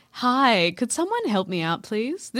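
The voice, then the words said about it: Polite customer service voice. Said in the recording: “This is my customer service voice.”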